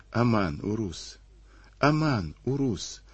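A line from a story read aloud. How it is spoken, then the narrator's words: Whispered plaintive plea. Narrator (Russian): шептала девочка, с этой жалобной мольбой о помощи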